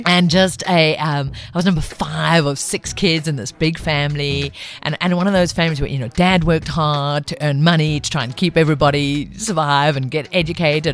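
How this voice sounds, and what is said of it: Mixed, hard-to-place accent. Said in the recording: “I know my accent doesn't sound like it, but I'm actually a Zulu chick ... my accent's all over the place”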